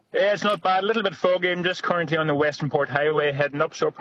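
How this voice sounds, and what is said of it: Noticeable regional accent. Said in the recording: “Love your accent.”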